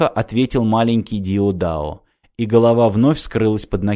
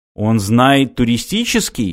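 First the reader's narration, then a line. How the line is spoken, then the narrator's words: Exclaiming. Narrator (Russian): воскликнул Мартин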